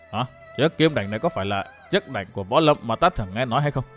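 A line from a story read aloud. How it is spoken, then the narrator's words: Startled frightened mutter. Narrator (Vietnamese): Hắn hoảng hồn lùi lại mấy bước lẩm bẩm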